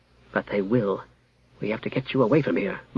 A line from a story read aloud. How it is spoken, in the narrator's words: muttered Jara